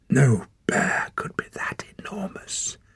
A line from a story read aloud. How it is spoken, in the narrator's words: she whispered